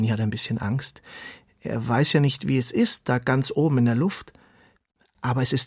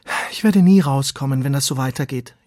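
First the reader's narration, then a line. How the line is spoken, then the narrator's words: Whining. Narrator (German): jammert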